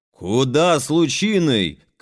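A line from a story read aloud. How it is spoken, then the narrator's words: Shouted. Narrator (Russian): крикнул Прокудин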